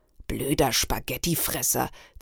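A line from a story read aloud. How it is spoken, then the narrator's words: Hissed. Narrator (German): zischte sie mir zu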